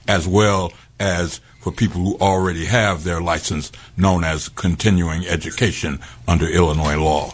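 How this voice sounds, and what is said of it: Deep resonant radio-style voice. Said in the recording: “that voice you got? ... you got a magical voice ... You sound like the radio version of James Earl Jones.”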